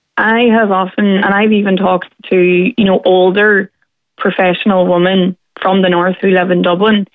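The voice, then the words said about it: Northern Irish accent. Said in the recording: “For me as well, the Northern accent is seen as intimidating ... it's just the way we talk”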